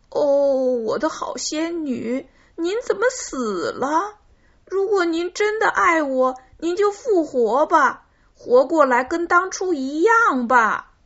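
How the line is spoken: Crying. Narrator (Chinese): 他哭着说

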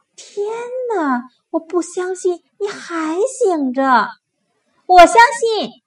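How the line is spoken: Whispering softly. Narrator (Chinese): 黛拉小声说

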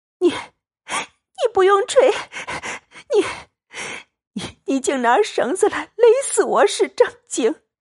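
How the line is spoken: Breathless panting speech. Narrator (Chinese): 喘得抬不起头来，黛玉扶枕喘息半晌，道

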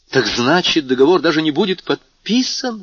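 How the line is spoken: Exclaiming. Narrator (Russian): воскликнул Мурель

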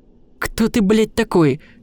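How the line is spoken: Somewhat agitated question. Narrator (Russian): спросил Сандху, звуча несколько взволнованно

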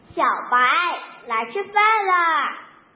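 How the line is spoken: Woman calling out. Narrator (Chinese): 女主人又喊了一声

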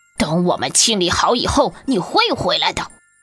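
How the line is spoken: Angry roar. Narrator (Chinese): 猫生气的大吼道

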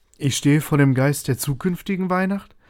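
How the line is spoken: Plain. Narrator (German): fragte Scrooge

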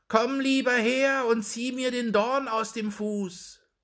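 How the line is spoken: Fox calling. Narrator (German): rief der Fuchs

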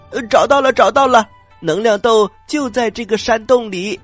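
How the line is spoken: Excited jumping shout. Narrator (Chinese): 他又蹦又跳的喊着

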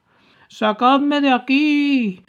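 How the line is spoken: Tearful shouting. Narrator (Spanish): seguía gritando Gussy con voz llorosa

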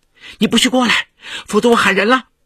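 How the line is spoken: Shrill scream. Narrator (Chinese): 叶世蒙见陈学明如此无赖，不由得尖叫起来

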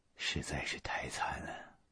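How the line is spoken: Soft sigh. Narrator (Chinese): 这个雪莉杨轻轻的叹息说

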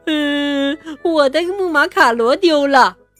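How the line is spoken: Sobbing bitterly. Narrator (Chinese): 他又痛哭流涕

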